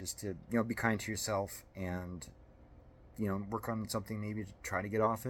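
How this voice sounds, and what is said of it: Usual voice. Nothing is said of it.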